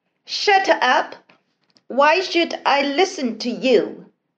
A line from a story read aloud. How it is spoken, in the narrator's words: a boy shouting at his classmates